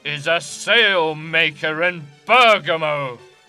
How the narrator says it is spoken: replied Vincentio angrily

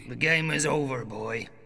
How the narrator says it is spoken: growled the man on the stairs

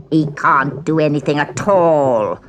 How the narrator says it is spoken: sneered the old peddler woman

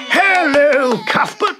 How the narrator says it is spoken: he shouted

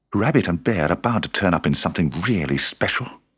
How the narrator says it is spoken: he muttered

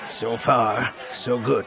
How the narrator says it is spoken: Wedge said, his voice low

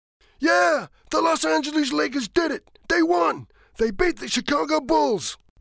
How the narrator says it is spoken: shouts

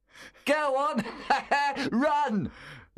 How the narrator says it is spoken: Lewis yelled, laughing

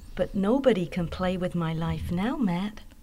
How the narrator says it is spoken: she said happily

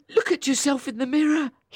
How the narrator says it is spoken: said, laughing

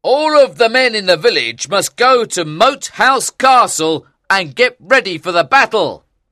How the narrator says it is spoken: Hatch cried

